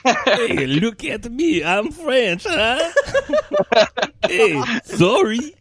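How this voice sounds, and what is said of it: Put-on French Canadian accent. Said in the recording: “pitch perfect French Canadian accent ... It's like I'm actually in the province of Quebecois.”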